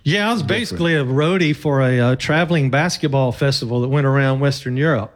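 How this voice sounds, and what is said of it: American Southern drawl. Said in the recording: “that drawl... the American South... Mississippi... my accent.”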